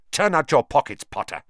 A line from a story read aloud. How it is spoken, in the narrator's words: spat suddenly